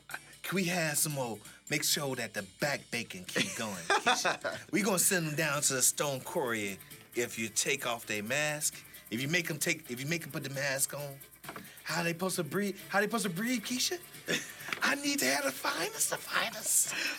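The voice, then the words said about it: Imitates another person's voice. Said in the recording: “my Brian Kemp impersonation ... that character from Django that Leonardo DiCaprio was playing”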